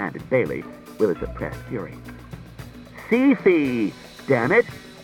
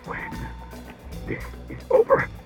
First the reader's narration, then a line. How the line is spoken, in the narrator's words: began, but choked into inarticulacy